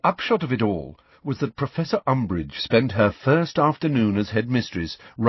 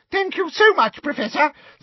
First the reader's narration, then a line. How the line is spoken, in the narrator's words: said Professor Flitwick in his squeaky little voice